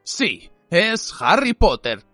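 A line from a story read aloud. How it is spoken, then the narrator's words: Grumpy voice. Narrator (Spanish): dijo una voz gruñona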